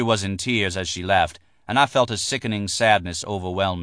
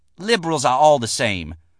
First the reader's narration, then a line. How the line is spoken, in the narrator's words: Betsy spat out, and she was uncomfortable on center stage